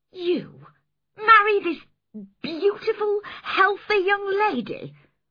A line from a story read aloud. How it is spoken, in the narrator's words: I cried